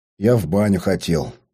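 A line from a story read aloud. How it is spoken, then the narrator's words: Grumbling. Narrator (Russian): проворчал я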